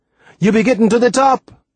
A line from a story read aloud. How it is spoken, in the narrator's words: I heard him shout